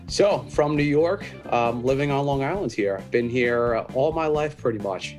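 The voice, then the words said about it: Heavy New York accent. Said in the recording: “Hence the heavy accent, the New York accent I got.”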